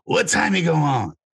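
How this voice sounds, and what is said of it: Imitates another person's voice. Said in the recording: “what was that impression of? ... That's Chris. That's my Chris Rock impersonation.”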